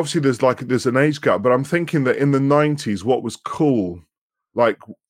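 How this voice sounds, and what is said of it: Whiny Manchester accent. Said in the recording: “our Manchester accent lends itself to indie music because we have quite a whiny accent”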